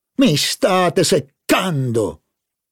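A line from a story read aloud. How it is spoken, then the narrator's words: Terrible shout. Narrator (Italian): gridò il signor Verdurin con voce terribile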